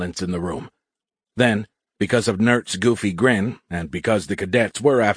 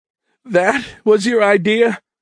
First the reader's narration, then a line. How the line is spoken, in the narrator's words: Perkins asked, with tears of laughter rolling down her cheeks